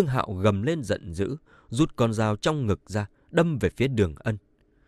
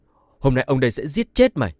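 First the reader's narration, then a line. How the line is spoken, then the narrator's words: Roaring. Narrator (Vietnamese): Đường Ân như gầm lên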